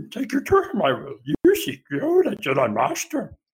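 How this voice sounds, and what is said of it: Yoda impression. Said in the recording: “You're a practicing Yoda impersonator ... Surprisingly better than your Yoda”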